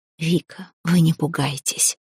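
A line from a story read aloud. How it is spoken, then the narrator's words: Whisper. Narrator (Russian): шепотом обратилась ко мне Аурелия, как только ее сын отошел подальше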